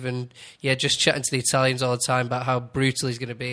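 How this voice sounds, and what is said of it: Manchester Northern English accent. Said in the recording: “He has a Manchester accent. ... Northerner.”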